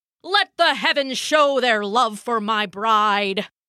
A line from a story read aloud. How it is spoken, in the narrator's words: Thor bellowed